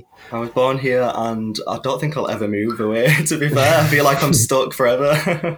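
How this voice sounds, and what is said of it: Northern English accent. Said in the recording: “You've got a beautiful northern accent ... you're from Leeds”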